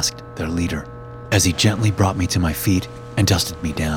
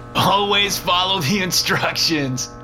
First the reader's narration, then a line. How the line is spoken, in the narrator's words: laughed the one with the shovel